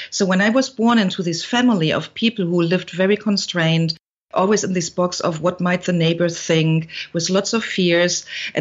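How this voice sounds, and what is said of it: German accent. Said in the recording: “back in Germany, you hear it from my accent”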